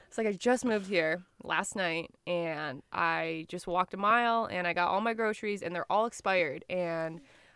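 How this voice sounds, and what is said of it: American accent. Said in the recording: “I just moved here from America, as if he couldn't tell by like my ... accent.”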